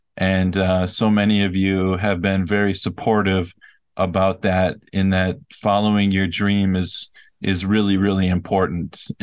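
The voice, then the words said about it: Emotional, sad-sounding voice. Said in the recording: “you can tell from my voice that it's hard to say goodbye”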